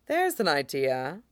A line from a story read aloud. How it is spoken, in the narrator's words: Riza says, in an unusually thoughtful voice